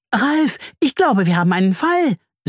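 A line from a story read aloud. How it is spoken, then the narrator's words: Excited humming. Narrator (German): summt sie aufgeregt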